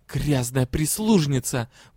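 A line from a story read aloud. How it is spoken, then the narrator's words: Furious hiss. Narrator (Russian): прошипела взбешенная Ригра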